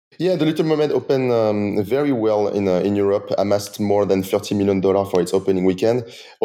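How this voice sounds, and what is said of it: Accented English. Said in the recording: “with your accent”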